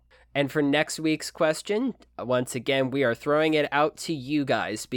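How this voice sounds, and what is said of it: Usual voice. Nothing is said of it.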